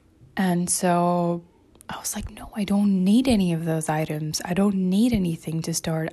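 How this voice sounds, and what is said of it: Slightly raspy voice. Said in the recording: “I had like a singing session a few minutes ago, which is why my voice is a little bit rapsy.”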